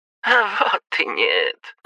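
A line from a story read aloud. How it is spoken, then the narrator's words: Snort. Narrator (Russian): хмыкнул его друг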